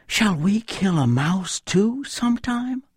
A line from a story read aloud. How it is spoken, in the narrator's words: Bambi asked his mother anxiously